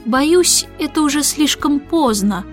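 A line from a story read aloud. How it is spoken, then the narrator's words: Sad. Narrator (Russian): грустно сказал он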